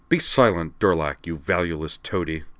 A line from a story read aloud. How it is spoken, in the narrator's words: Amanda snapped